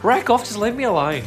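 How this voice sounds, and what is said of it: Put-on Australian accent. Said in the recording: “your Australian accent”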